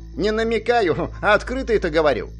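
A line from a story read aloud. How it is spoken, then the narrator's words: Snort. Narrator (Russian): фыркнул Зак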